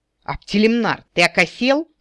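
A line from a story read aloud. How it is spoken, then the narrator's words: Orc growling. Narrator (Russian): зарычал орк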